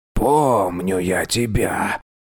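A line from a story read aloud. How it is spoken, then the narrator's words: Hoarse voice. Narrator (Russian): хрипло произнес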